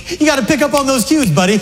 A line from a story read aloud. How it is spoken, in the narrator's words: Tom Cruise, laughing, goes